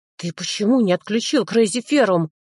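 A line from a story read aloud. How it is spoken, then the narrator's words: Through gritted teeth. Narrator (Russian): Сквозь зубы процедил я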